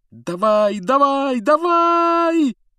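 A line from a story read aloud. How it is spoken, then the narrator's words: Desperate yelling. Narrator (Russian): отчаянно вопил Гарри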